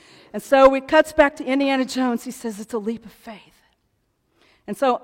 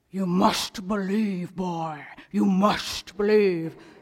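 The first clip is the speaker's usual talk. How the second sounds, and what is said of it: Sean Connery impression. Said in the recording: “my Sean Connery impersonation.”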